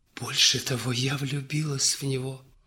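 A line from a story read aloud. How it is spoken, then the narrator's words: Whispering young countess. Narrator (Russian): прошептала графинюшка и заплакала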